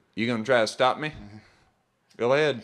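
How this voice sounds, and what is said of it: Put-on Southern accent. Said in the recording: “we're giving them the southern accent”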